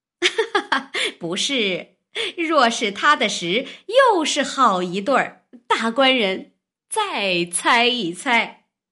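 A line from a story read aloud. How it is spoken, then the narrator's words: Loud laughter. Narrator (Chinese): 王婆大笑道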